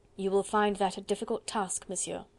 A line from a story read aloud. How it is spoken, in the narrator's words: she said dryly